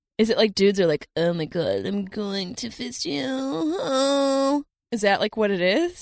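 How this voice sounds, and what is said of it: Put-on valley girl voice. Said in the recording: “you sound like a valley girl”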